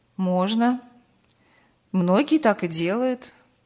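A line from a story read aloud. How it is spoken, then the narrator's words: Sad smile. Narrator (Russian): грустно улыбнулся Аркадий Петрович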